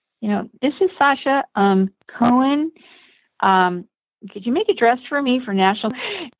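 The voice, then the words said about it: Little high voice imitating Sasha Cohen. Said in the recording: “this little high voice.”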